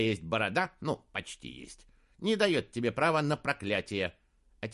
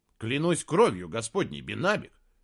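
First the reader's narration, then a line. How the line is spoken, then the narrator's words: Exclaimed. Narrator (Russian): воскликнул Саймон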